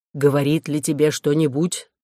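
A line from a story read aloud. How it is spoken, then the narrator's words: Muffled question. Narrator (Russian): спросил он приглушенным голосом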